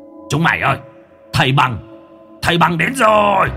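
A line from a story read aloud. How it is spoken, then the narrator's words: Sudden shout. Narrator (Vietnamese): Đột nhiên lão đại hét lên một tiếng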